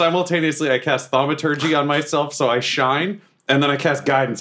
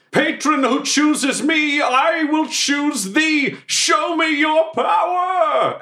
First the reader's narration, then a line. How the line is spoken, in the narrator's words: I just yell